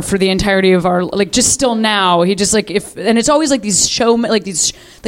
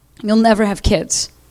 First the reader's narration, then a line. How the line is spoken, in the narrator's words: he said